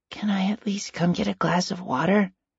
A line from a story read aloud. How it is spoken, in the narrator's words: Stephen asked quietly